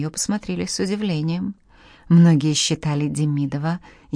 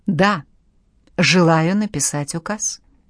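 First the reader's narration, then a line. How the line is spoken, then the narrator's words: Firm repetition. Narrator (Russian): повторила Анна Иоанновна твердым голосом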